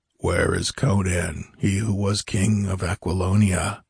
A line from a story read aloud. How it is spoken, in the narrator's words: demanded the tallest of the four in a passionless monotone that made Publio shudder